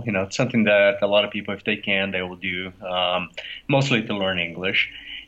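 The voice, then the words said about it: Brazilian Portuguese accent in English. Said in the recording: “my accent is from Brazil”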